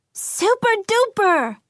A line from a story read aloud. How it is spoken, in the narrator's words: Athena cried out